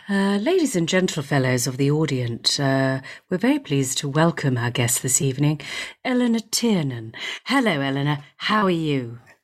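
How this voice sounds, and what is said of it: Put-on radio announcer voice. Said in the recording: “I'll do my radio voice as well”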